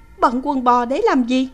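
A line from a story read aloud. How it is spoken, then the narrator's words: Trembling question. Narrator (Vietnamese): Kha Kha run rẩy hỏi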